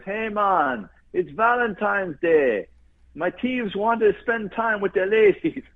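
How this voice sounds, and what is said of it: Put-on Jamaican accent, poorly done. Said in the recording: “the Jamaican goes ... I'm doing a terrible accent.”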